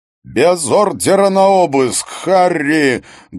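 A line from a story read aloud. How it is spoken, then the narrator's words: Very loud yelling. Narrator (Russian): Гуннар Хаген орал так громко, что Харри приходилось держать телефон на расстоянии от уха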